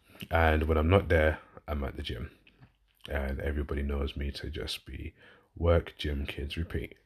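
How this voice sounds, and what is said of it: Southern English London accent. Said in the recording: “I'm originally a southerner, so I'm from London originally, as you can tell by my accent”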